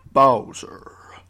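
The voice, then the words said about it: Dramatic announcer voice. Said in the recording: “let me do my best announcer voice ... like the Smash Brothers announcement”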